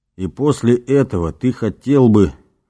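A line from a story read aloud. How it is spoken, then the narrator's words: Suddenly hoarse voice. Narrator (Russian): внезапно осипшим голосом продолжил Понтий Пилат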